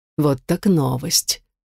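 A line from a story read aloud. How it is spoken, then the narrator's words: Almost purring. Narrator (Russian): почти промурлыкала она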